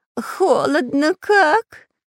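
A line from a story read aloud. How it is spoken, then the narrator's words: Whining. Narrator (Russian): заскулил шпион Дырка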